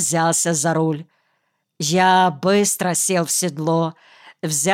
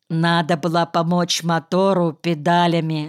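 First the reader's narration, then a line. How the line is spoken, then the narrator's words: Plain. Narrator (Russian): сказал я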